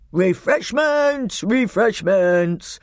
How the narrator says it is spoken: roared the old man

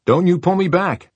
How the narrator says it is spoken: Kurt shouts

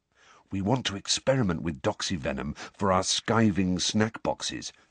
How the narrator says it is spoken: George told Harry under his breath

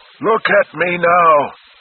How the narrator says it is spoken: shrieked again, weeping

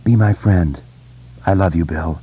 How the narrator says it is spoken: muttered

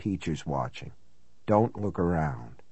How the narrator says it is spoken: in a lower voice

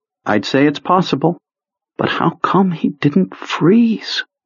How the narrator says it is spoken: had lowered his voice to a near whisper, probably without being aware of it

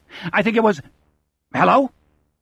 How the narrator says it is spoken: He barks this last

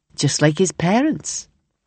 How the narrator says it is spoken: Kelly said dryly

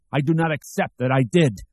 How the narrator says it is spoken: he shrieked

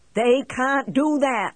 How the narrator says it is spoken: he yells

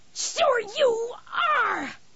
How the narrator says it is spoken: She screamed

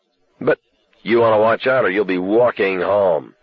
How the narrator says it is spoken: Buddy snarled, with a rupture

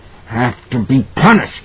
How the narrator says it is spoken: he was grunting

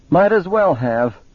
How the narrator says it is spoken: Roger said, and laughed shrilly

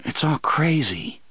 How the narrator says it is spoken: he murmured

